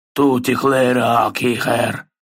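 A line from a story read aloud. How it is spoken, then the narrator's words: Grumbling troll. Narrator (Russian): проворчал тролль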